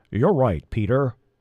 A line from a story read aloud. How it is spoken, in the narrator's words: rumbled Fowler